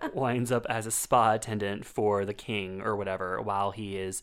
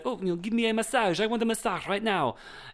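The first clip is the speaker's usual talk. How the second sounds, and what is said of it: Put-on French accent. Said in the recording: “in a French accent”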